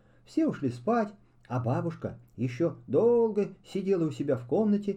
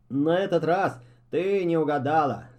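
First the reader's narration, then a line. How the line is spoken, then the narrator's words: Father laughing. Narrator (Russian): засмеялся папа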